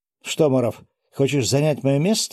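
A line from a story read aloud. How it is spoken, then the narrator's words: Angry breathy. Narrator (Russian): зло выдохнул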